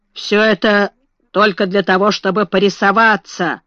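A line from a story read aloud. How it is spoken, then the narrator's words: Muttering. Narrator (Russian): бурчал благородный лорд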